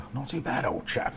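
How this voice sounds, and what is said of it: Put-on posh English accent. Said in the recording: “that's the best posh accent I can do. I don't think I'll be getting a position on Downton Abbey anytime soon.”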